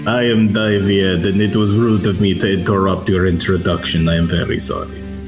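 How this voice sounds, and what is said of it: Put-on character accent. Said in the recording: “I love that accent. That's perfect. ... It's so good.”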